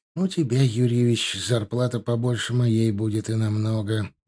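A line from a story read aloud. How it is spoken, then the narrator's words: Muttered. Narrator (Russian): пробормотал он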